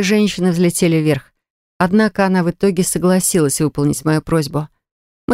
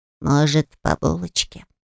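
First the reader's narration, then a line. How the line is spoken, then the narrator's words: Suggesting. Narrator (Russian): предложил Альфи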